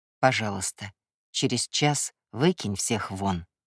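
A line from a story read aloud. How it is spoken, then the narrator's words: Quiet request. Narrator (Russian): тихо попросил у него Кай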